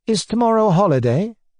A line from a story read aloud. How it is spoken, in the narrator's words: asked